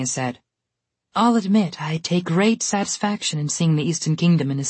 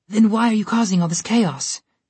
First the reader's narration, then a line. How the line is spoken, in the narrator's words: Rumpelstiltskin asked, nervously